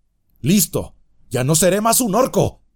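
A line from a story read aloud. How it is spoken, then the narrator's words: Shouted. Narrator (Spanish): gritó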